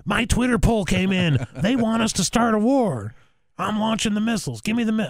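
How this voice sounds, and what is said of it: Mock generic president voice. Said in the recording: “I'm doing a voice. It's not Trump. But I'm doing, like, a president voice. ... this is the voice I use for every president.”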